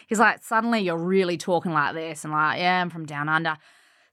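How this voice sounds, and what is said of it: Australian accent, South Australian. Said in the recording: “I'm from Australia, mate ... sometimes I'll go over the top ... I lean into the Aussie accent ... South Aussie, mate, from Adelaide”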